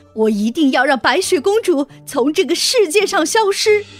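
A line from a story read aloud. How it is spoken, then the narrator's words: Furious queen shouting. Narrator (Chinese): 王后 气愤极了 大叫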